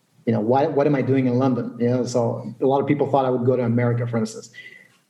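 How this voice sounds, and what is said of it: American accent. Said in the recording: “As you can hear, I have an American accent.”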